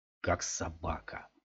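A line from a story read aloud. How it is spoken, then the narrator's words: Grumbling. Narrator (Russian): проворчал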